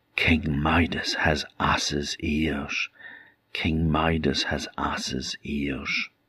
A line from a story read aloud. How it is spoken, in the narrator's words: they whispered